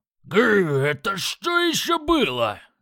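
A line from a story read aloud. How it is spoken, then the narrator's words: Battle-excited yell. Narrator (Russian): завопил Крак в боевом азарте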